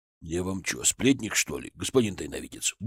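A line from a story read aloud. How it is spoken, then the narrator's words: Grumble. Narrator (Russian): буркнул Кузьма Петрович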